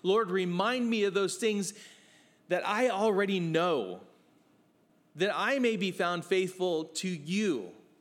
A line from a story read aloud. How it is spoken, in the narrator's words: I ask him, I plead with him